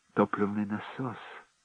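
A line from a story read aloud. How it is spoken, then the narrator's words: Timid stammer. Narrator (Russian): заикнулась Венди робко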